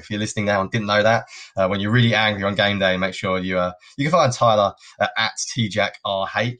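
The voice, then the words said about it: British accent. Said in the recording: “they can tell by my accent. I'm obviously here in the UK”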